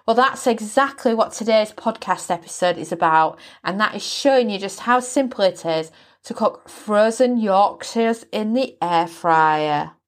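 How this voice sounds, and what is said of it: Yorkshire English accent. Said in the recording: “you can probably tell by my accent. ... I am pure Yorkshire. I actually live in East Yorkshire.”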